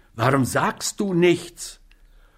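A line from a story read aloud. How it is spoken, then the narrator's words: Angry question. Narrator (German): fragte Kelly zornig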